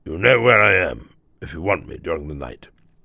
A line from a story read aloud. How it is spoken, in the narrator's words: he murmured in a gruff undertone